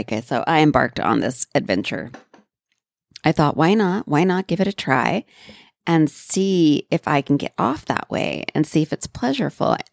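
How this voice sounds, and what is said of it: Sleepy, gravelly morning voice. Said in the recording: “hear the sleep in my voice? ... I feel like I'm kind of gravelly today”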